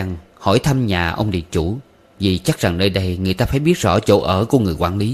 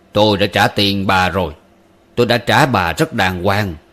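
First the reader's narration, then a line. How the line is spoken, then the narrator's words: Cold. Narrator (Vietnamese): hắn nói thêm bằng giọng lạnh lùng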